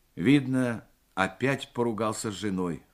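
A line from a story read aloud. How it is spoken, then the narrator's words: Sighing. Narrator (Russian): вздохнул Морев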